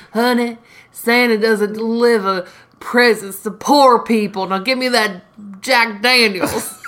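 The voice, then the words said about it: Impression of a drunk mother. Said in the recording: “do an impression of Jake's mom saying, Santa doesn't deliver? ... You do it better than me.”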